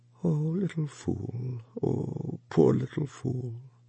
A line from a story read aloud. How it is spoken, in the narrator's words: Wang Lung groaned and held the child to him and said over and over to her softly